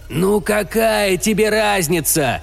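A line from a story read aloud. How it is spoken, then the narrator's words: Shouted. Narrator (Russian): закричал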